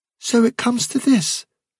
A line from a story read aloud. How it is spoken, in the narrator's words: said Fiver